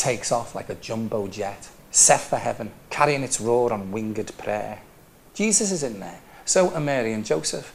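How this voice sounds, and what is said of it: Scouse (Liverpool) accent. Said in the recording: “This poem is about having an accent, and it's called My Scouse Voice.”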